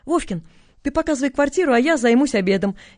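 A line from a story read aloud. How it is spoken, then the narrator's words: Cheerful command. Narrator (Russian): весело скомандовала та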